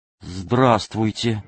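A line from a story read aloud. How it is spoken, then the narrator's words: Bewildered. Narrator (Russian): Яснов растерянно сказал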